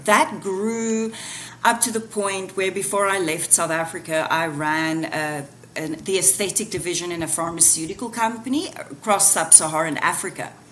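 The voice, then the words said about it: South African accent. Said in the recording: “you can hear the accent still”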